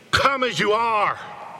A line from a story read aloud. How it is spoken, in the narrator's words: Jesus pleading